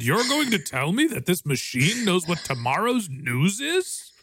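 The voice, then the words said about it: Imitates a news anchor character. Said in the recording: “bad Ron Burgundy impression”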